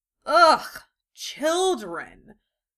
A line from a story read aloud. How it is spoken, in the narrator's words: Tsunade growled